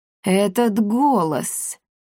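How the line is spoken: Muttering. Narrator (Russian): пробормотала Каптильда

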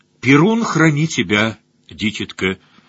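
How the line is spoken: Plain. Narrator (Russian): сказал наконец плотица

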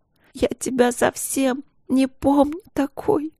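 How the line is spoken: Crying. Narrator (Russian): плакала Каролина

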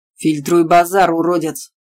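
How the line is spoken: Father barking angrily. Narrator (Russian): Рявкнул на колдуна Анин папа

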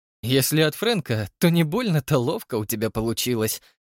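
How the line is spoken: Laughing. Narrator (Russian): засмеялась Тесса

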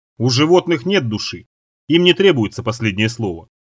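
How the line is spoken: Plain. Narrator (Russian): ответил я

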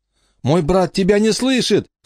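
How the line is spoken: Shouting. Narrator (Russian): крикнула Эмма

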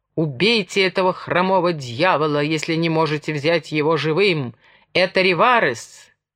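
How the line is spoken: Angry shout. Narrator (Russian): По мундиру капитана алыми ручейками полилась кровь, но яростным усилием воли он выпрямился, злобно крикнул

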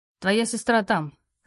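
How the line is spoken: Slightly displeased. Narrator (Russian): сказал он слегка недовольным тоном

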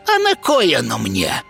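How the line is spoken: Snort. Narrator (Russian): фыркнула ведьма

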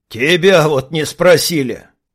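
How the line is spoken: Big man chuckling. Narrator (Russian): хохотнул здоровяк

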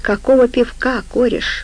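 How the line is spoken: Sad reply. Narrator (Russian): грустно ответил ему хрящ

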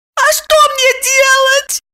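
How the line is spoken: Squeaky voice. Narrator (Russian): пропищала Липочка

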